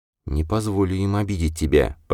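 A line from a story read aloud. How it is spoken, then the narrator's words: Whisper. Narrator (Russian): прошептала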